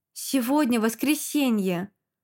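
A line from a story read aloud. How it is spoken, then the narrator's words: Sighed. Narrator (Russian): вздохнул Щербинский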